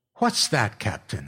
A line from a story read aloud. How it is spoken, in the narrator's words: I said sharply